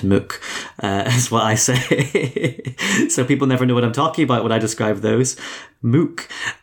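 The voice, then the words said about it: Northern Irish accent. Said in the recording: “Northern Irish accent”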